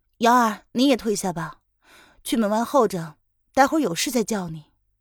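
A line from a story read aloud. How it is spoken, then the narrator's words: Cool, detached order. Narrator (Chinese): 凌渊淡淡的吩咐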